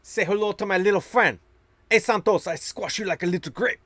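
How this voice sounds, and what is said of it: Imitated movie-character accent, slightly off. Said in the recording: “My accent was a little off there.”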